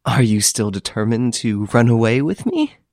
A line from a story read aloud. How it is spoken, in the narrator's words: she asked with a laugh